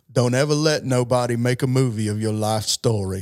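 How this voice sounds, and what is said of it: Forrest Gump character voice impression. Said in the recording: “that's pretty good what you just did... I can't do that accent... That's my first successful impression”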